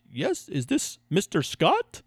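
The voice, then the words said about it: Bad put-on German accent. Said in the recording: “that was an indian accent ... that was wrong ... i'm terrible ... your version of a german accent”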